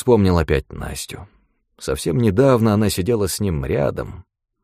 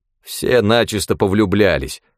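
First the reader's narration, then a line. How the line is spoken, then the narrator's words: Grumbling. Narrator (Russian): проворчал Пашка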